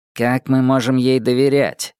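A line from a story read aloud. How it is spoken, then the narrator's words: Plain. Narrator (Russian): сказал он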